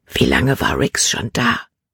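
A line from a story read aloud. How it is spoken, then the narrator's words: Whisper. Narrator (German): flüsterte sie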